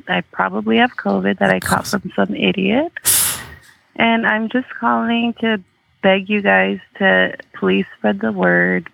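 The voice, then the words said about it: Hoarse, worn-out voice. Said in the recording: “As you can hear, my voice is shot to shit.”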